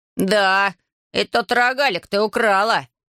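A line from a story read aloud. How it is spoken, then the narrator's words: Barked. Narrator (Russian): рявкнул Рейца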